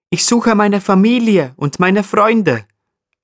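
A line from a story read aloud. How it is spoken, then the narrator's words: Cheerful explanation. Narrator (German): erklärt Paddy dem Steinbock fröhlich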